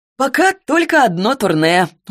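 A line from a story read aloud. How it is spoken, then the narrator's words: Laughing. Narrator (Russian): он тоже засмеялся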